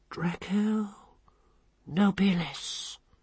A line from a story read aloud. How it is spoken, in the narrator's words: she said hoarsely